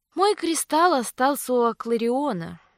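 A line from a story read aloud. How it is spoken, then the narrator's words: Sad reply. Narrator (Russian): грустно ответила баронесса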